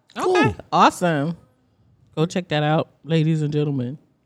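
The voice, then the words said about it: Deliberately deep announcer voice. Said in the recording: “Was that your deep voice?”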